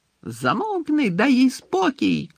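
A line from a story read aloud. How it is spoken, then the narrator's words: Shouted. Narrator (Ukrainian): крикнув Пікс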